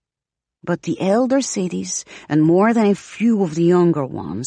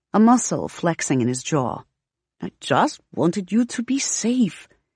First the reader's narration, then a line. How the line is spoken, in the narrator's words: he says finally, softly